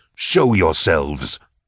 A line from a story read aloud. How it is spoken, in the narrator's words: my raw command